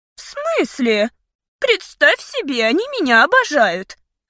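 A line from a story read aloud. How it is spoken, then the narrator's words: Offended. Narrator (Russian): обиженно уточнила она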